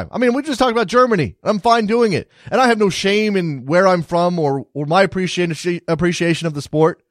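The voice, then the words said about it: American accent. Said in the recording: “I'm an American soccer fan with an American accent”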